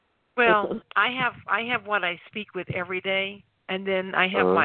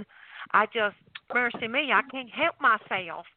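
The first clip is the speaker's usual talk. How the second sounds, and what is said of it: Put-on Southern US accent. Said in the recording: “my southern accent that I use when I'm with my family ... I sound like Paula Dane”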